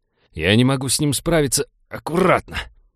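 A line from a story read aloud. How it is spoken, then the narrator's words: Growled. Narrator (Russian): прорычал Винни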